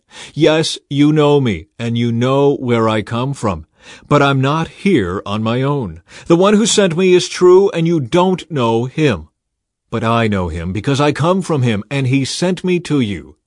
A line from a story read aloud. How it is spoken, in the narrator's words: he called out